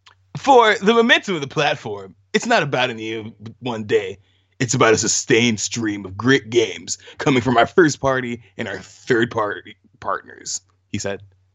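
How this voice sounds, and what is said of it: Dude bro voice. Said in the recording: “do a dude bro voice? Read that in a dude bro voice.”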